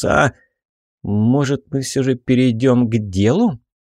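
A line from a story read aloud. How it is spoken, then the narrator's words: Irritated young woman, curt. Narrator (Russian): Раздраженно бросила девушка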